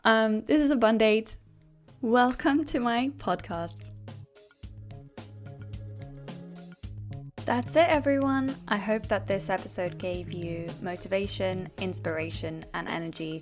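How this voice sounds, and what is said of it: Congested voice from a cold. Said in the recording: “sounds like I've got a cold.”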